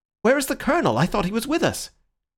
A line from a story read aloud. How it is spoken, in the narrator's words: Syme, who was standing as if blind with introspective thought, cried out like a man waking from sleep